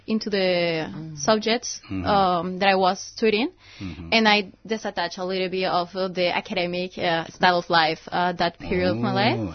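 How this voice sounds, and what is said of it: Non-native accent, somewhat Romanian-sounding. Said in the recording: “you've got a Romanian accent ... as if you're from Romania ... it's not a normal South American accent. It's not a normal Spanish South American accent you have.”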